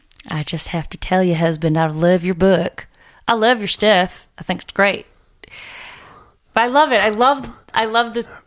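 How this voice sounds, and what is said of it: Put-on Southern accent, joking. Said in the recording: “the southern book. Accent when you said it ... I wanted it to sound a little funny instead of super sincere”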